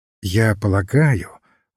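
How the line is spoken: Very gentle. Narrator (Russian): очень мягко сказал отец Браун

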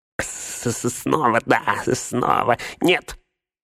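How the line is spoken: Shrieked. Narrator (Russian): взвизгнул Горлум

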